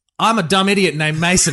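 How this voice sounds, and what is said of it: Impression of a co-host's voice. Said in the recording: “Maybe one of you is doing a great impression. ... He's good.”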